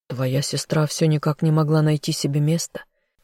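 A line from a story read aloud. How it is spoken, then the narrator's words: Husband's quiet sigh. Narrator (Russian): тихо вздохнул ее супруг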